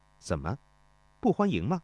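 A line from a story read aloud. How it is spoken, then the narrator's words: Flat, indifferent. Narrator (Chinese): 钟离春淡淡地说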